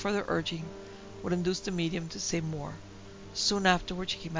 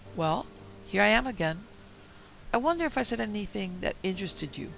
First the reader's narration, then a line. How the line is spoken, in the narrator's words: we all replied rather coldly